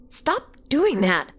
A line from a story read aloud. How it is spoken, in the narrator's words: she laughed